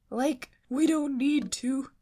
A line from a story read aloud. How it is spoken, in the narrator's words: Shaggy cried